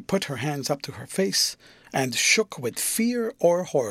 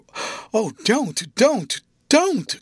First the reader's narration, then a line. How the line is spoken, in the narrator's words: cried, dropping on her knees and clinging to her new resource